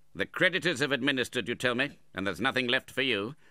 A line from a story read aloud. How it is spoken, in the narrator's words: said Ralph impatiently